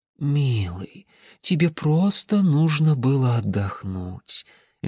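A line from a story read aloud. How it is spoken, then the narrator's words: Affectionate, smiling. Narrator (Russian): Льдиния ласково улыбнулась ему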